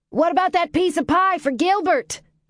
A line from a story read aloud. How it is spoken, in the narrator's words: Ruth called out